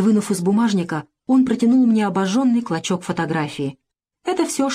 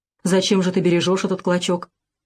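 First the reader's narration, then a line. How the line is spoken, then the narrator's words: Gloomy. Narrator (Russian): Юра мрачно сказал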